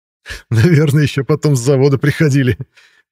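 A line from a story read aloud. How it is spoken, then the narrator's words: Loud laughter. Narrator (Russian): расхохотался Мирон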